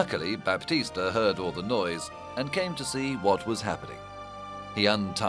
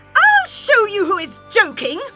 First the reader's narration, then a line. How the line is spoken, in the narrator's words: shouted Katharina